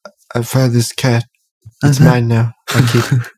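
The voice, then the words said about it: Poor imitation of another person's voice. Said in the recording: “That was not a great impression. ... It's not a great impression. We need more ... Cotton buds in our mouth.”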